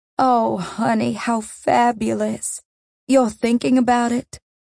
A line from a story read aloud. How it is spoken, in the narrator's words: gasped, delighted